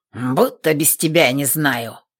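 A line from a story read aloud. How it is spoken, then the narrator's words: Irritable snap. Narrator (Russian): огрызнулся Третьяк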